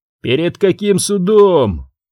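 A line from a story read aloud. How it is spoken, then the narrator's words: Snorting. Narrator (Russian): хмыкнул Тетлоу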